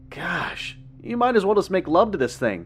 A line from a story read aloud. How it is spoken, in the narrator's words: I chuckled